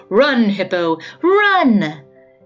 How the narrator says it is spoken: Kyo laughed his jolly guck-guck-guck-guck-guck-guck

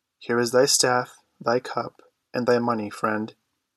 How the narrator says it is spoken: he said calmly

